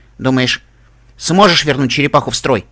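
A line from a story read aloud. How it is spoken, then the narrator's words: Snort. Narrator (Russian): Каламити аж фыркнул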